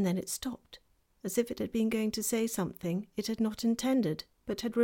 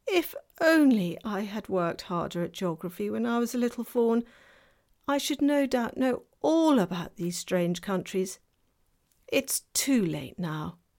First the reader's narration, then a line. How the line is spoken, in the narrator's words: Tumnus, in a rather melancholy voice